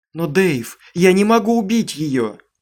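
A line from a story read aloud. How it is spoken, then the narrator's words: Protesting shout. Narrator (Russian): протестующе закричала Аманда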